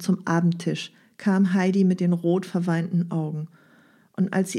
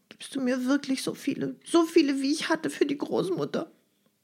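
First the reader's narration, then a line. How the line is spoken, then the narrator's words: Sob-broken question. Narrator (German): Clara, von Schluchzen unterbrochen, fragen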